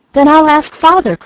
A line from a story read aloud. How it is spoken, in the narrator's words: cried the boy